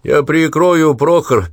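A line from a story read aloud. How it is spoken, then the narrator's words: Shouting over engine noise. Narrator (Russian): перекрикнул звук мотора Коронелли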